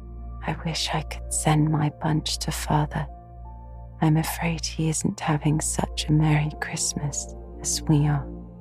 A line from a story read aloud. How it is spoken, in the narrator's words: Beth whispered softly